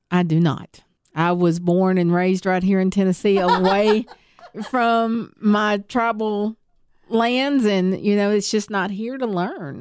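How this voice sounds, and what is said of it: Southern American accent. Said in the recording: “you have such a Southern accent, ... I speak very fluent Tennessean.”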